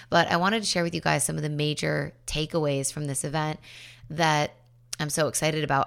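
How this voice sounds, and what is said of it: Raspy voice. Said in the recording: “This is my raspy voice. Hopefully we'll be healed in a few days.”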